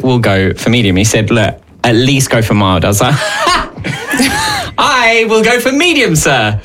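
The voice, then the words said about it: Speaks with a noticeable accent. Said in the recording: “just because I have this accent”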